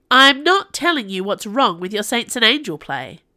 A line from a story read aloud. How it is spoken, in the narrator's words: she snapped